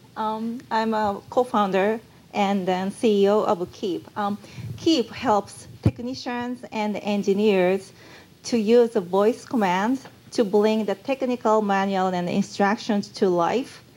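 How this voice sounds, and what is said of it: Japanese accent. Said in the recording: “Maybe you found me Japanese from my accent”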